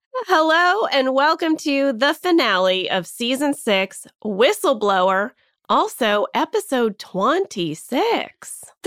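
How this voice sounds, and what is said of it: Nasal, congested voice. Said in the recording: “I sound a little nasally. I'm working out some head congestion... She's got a little bit of a stuffy nose... I can hear it.”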